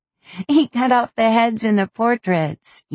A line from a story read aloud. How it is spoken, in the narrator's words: Ima laughed, in disbelief